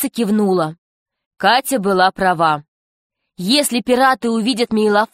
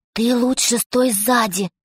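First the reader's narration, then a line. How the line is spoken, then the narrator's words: Whisper. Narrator (Russian): прошептала Катя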